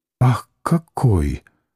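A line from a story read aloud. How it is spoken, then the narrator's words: Soft whispered exclamation. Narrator (Russian): тихонько воскликнула шепча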